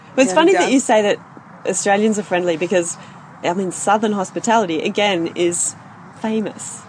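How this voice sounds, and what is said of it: Australian accent. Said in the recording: “the Australian accent? ... I love to hear you speak.”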